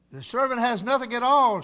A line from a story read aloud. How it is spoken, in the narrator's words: said